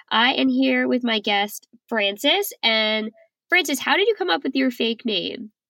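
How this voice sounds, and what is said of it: Congested voice from a cold. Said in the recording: “I have a terrible cold, so my voice sounds a little funny”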